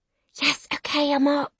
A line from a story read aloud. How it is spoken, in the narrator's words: I hiss